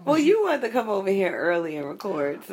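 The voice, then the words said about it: Weaker, groggy just-woke-up voice. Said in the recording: “My voice is a little different. ... It's not as strong as it usually is, not as virile. ... just rolled out of bed.”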